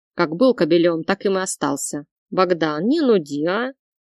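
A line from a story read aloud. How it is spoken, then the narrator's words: Snapping retort. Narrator (Russian): Огрызнулся красавчик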